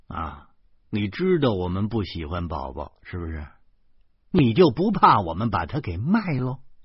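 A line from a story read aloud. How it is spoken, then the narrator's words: Barely audible. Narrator (Chinese): 林娜用几乎让人无法捕捉的声音说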